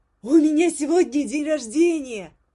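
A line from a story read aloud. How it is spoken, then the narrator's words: Shout. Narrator (Russian): крикнула она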